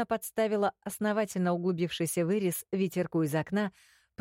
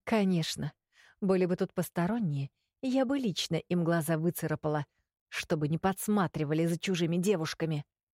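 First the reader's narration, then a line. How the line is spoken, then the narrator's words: Hissed. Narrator (Russian): зашипела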